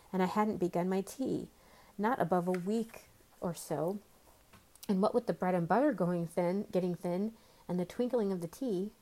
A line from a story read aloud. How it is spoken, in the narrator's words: the Hatter said in a trembling voice